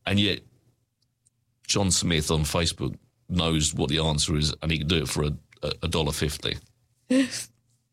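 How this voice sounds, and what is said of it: Sarcastic delivery. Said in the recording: “being sarcastic.”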